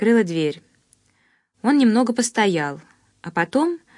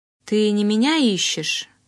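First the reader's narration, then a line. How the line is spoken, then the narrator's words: Ingratiating voice. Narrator (Russian): прозвучало вкрадчиво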